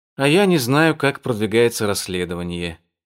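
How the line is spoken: Said sadly. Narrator (Russian): печально сказала Али

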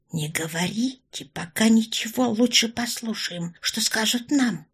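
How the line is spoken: Whispered. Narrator (Russian): прошептала Орлова

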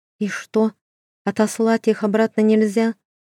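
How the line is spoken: Sighing. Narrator (Russian): вздохнула Маша

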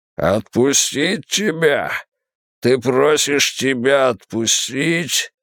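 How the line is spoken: Disgusted growl. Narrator (Russian): Тул зарычал от отвращения

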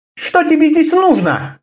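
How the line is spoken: Sharp question. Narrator (Russian): резко спросила она

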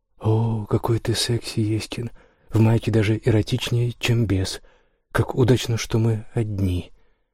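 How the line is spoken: Playful, then hoarse whisper. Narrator (Russian): Голос меняется от игриво-шутливого до тихого хриплого шепота

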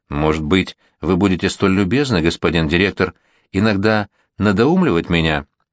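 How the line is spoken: Plain. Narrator (Russian): сказал граф Горн

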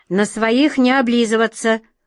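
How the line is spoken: Stern shout. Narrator (Russian): строго прикрикнула на нее атаман Джина

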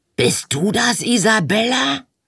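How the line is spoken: Hoarse call. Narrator (German): rief eine heisere Stimme

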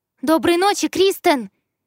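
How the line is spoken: Shout from a distance. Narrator (Russian): крикнула я уже из коридора

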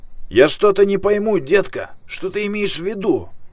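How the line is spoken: Shouted from hiding. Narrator (Russian): Бёрд, затаившись за преградой, выкрикнул

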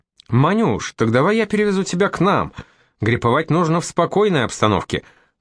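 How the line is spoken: Cheerful reply. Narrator (Russian): бодро отзывается полкан

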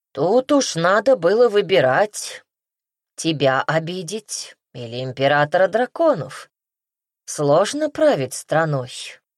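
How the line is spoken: Plain. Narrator (Russian): ответил Ханум

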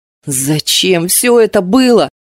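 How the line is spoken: Indignant growl. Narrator (Russian): с негодованием зарычала

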